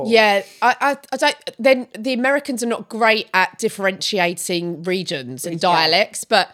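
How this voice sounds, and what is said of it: Essex accent. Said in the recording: “Essex ... people do nothing but take the piss out of my accent all the time”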